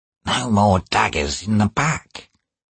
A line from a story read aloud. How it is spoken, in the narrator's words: he whispered